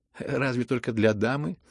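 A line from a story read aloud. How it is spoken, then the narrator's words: Laughing. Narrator (Russian): рассмеялся Ипполит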